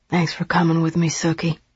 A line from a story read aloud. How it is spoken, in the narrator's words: whispered